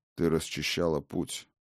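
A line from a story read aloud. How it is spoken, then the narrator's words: Quiet. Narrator (Russian): негромко сказал хозяин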